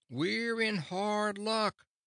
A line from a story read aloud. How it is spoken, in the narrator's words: shouted Cap'n Bill in reply